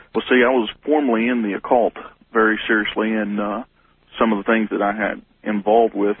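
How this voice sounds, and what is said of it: Southern US regional accent. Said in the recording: “judging from your accent, you're somewhere in the Bible Belt”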